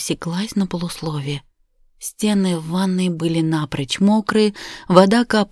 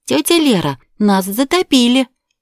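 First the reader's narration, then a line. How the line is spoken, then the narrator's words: Cheerful announcement. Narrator (Russian): бодро провозгласила Ника с порога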